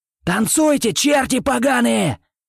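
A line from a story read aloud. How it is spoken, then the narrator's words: Yelled. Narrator (Russian): заорал Димон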